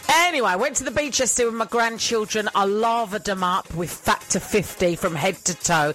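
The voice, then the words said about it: Mixed British accent, partly Scottish. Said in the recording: “accent is all over the place ... My Scottish accent is terrible, though. I do sound like someone trying to do the Scottish accent.”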